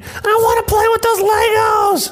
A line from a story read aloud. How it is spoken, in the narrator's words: Karen's kid screaming